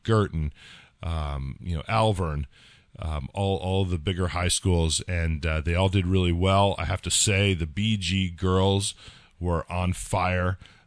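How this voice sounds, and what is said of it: Slightly hoarse voice. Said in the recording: “I apologize for my voice. There's a lot of yelling involved with the meet as well. So that's why I'm a little bit hoarse”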